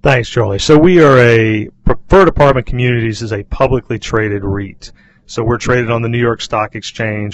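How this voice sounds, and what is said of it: Southern US accent. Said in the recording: “great to hear that southern accent... it reminds me of how my relatives talk here”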